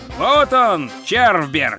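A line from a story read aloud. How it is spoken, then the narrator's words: Rider shouting into ear. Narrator (Russian): прокричал всадник прямо в ухо Ринсвинду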